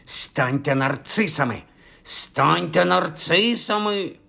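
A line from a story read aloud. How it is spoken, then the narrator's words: Hissing. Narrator (Ukrainian): шипіла вона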